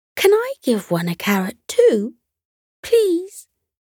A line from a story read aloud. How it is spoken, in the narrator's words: His little sister Heidi began jumping up and down excitedly and said